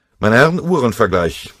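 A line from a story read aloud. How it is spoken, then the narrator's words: Called out. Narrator (German): rief er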